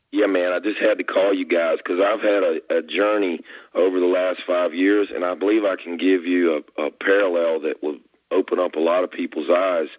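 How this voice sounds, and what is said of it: Hoarse, strained voice. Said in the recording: “apologies for my voice. I'm kind of hoarse. I've got some kind of laryngitis.”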